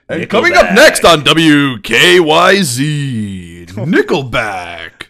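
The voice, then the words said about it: Radio announcer voice. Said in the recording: “His radio voice is nothing compared to my radio voice.”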